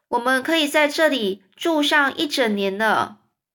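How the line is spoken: Loud shouting. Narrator (Chinese): 高声的喊叫着

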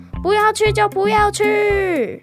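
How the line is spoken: Angry prince yelling. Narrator (Chinese): 生气王子大叫

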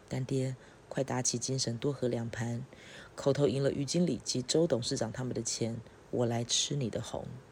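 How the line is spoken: Cheerful, smiling. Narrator (Chinese): 尹雪燕 笑盈盈地说道

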